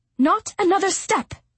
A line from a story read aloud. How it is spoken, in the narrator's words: she snapped